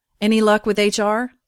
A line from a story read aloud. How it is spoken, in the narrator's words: I asked Rhea